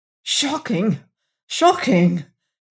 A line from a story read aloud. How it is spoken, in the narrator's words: gasped the passenger